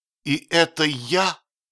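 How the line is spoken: Miserable exclamation. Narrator (Russian): воскликнул несчастный

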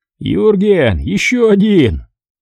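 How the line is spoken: Hoarse laugh, stranger's voice. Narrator (Russian): хрипло засмеялся чужой голос

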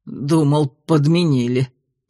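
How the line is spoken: Rasping. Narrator (Russian): прохрипел мастер теней

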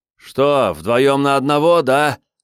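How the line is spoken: Shouted anxiously. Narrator (Russian): закричал он, тревожно

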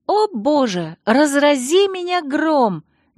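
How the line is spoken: Sudden unceremonious exclamation. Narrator (Russian): неожиданно без церемонии воскликнула Алексис

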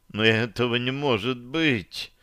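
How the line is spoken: Moaning. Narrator (Russian): простонала Таша

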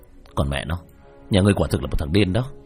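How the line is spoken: Cold tone. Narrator (Vietnamese): Diệp Thiếu Dương lạnh lùng

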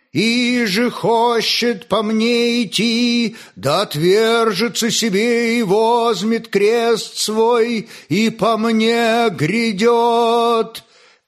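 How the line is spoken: Singing, clear strong voice. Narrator (Russian): пел Иллар чистым и сильным голосом

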